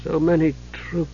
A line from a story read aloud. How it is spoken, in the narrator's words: he said softly to himself